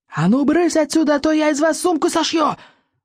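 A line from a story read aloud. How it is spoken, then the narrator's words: Loud yell. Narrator (Russian): завопил стоик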